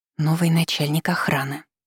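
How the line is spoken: Whispered explanation, female friend. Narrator (Russian): шепотом пояснила подруга

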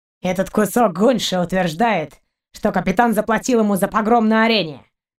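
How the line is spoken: Through gritted teeth. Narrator (Russian): Сквозь зубы процедил пират

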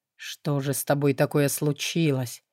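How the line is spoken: Whispered. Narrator (Russian): прошептал

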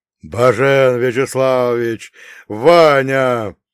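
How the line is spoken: Booming. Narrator (Russian): прогремел

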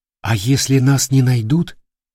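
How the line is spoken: Quiet question. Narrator (Russian): тихо спросила Кира

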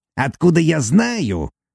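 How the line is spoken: Bitter snort. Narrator (Russian): Горько хмыкнул

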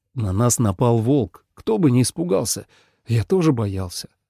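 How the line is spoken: Soft. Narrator (Russian): мягко сказал Лен

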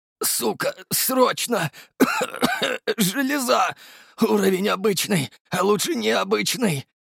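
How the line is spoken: Strained, exhausted. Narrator (Russian): На последних силах выдавил я из себя

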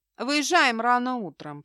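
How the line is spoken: Warning. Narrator (Russian): предупредил Джеймс

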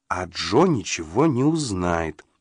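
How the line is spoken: Slow speech. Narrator (Russian): медленно произнесла Полли

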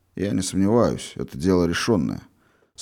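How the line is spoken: Calm. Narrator (Russian): спокойно проговорил Волошинов

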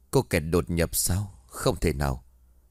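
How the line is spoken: Old man muttering. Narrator (Vietnamese): lão già khẽ cong lại, đoạn miệng của lão lẩm bẩm

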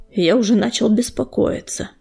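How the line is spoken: Relieved sigh. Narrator (Russian): с облегчением вздохнул Буран

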